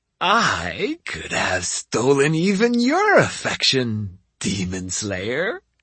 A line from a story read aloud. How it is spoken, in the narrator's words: she stated in a raspy voice